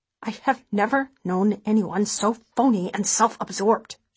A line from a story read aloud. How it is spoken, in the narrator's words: she mutters